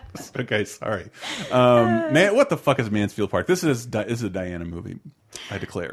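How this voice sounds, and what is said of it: Usual voice. Nothing is said of it.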